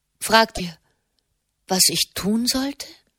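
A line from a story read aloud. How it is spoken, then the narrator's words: Gentle question. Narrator (German): fragte sie sanft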